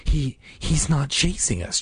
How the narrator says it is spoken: Joss whispered, his chest heaving as he struggled to catch his breath and stifle his fear

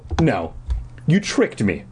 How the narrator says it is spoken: I insisted angrily

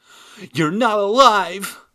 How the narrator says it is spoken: cried

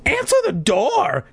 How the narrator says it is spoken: Hannah cried aloud

